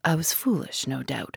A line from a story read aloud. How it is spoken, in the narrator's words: murmured Inglethorpe